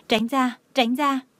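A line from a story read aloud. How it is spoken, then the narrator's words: Panicked trembling cry. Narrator (Vietnamese): cô ta cảm giác như mình bị rắn cắn vào bắp đùi, thân thể khẩn trương run rẩy kêu to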